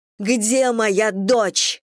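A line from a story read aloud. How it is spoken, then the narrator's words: Shouting again. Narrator (Russian): снова крикнула Мэгги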